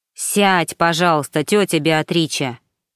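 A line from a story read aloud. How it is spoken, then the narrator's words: Irritated. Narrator (Russian): раздраженно сказал Паоло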